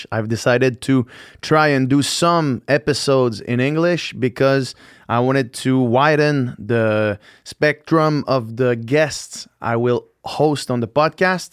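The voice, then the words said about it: Thick French accent. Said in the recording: “like I was just saying in French ... if my accent is too thick”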